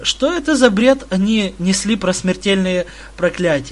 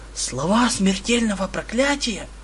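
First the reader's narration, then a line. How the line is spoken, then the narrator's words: Whispering boy. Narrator (Russian): Мальчишка продолжил шепотом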